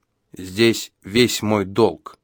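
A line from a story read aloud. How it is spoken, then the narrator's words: Solemn old man. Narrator (Russian): так же торжественно сказал старик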